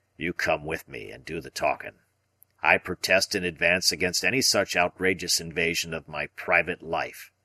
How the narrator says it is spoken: he grumbled

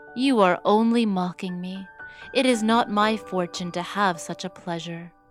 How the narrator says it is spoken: said Cinderella sadly

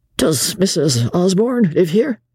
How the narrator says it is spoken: He was as pale as a ghost and could hardly falter out

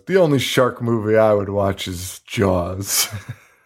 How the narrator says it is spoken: he just laughs to himself and goes

